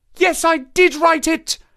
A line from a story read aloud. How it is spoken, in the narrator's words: she cried, pouring out her soul in a torrent of words